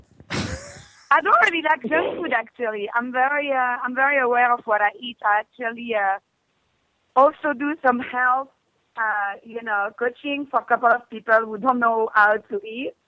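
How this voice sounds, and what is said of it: French accent. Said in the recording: “accent is super sexy, too. I love that French accent.”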